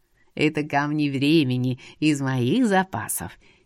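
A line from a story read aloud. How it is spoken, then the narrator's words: Giggling. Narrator (Russian): хихикнул он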